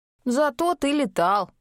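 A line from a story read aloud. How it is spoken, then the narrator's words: Grumbling. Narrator (Russian): проворчала Аделаида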